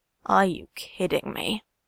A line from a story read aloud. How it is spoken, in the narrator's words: Shoto sighs